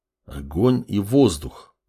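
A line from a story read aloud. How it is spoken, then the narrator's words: Doubtful mutter. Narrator (Russian): пробормотал он с сомнением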